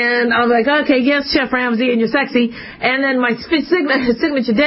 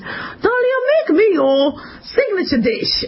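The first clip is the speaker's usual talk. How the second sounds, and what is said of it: Gordon Ramsay impression, Scottish accent. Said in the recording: “that's not how he talks. He does it with a Scottish accent.”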